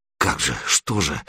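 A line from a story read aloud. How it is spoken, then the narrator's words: Muttering. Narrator (Russian): бормотал Серега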